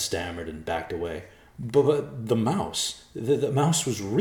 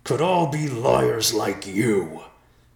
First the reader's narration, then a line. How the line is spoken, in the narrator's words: Whiteclaw roared